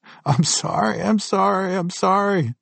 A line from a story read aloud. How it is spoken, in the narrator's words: I pleaded